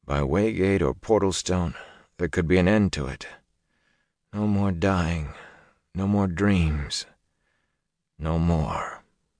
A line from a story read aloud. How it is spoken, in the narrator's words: Rand said drowsily